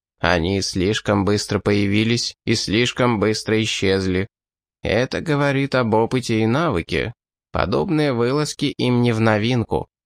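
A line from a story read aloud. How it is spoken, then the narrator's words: Plain. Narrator (Russian): ответил Линк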